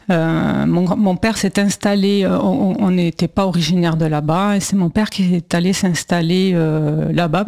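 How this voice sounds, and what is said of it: Southwestern French accent. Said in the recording (French): “C'est pour ça que j'ai un accent. ... Donc, le sud-ouest. ... Le sud-ouest, voilà, pas loin de Toulouse.”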